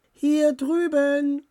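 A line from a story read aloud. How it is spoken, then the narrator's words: Calling out. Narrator (German): rief Dora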